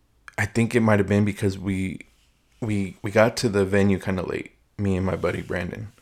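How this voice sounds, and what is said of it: Slightly raspy voice. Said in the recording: “Throat's a little parched ... my voice is a little raspy”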